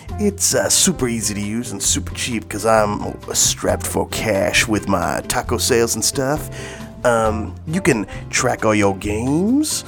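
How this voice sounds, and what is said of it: Exaggerated put-on accent. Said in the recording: “This accent is getting weird.”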